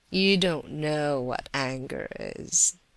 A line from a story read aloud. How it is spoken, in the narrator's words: laughed in reply to the heated words